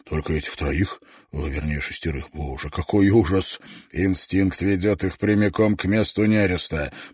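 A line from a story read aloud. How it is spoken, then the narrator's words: Muttered. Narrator (Russian): пробормотал Давенпорт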